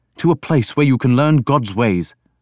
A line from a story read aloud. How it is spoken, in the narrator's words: he said urgently